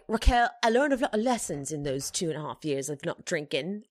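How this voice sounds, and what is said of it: Poor put-on British accent. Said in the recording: “I'm butchering accents. These are going to be like 7 different British accents. I cannot do accents to save my life. Like, British accents become Australian accents.”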